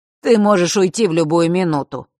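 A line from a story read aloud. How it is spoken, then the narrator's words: Smirking snort. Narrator (Russian): хмыкнул Фэш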